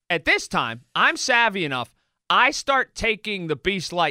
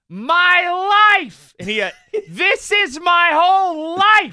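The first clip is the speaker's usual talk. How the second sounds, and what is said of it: Screaming, shouted voice. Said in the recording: “He's screaming”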